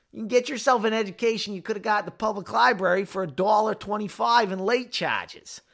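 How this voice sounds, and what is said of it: Bad put-on Boston accent. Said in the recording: “That's such a bad Boston accent.”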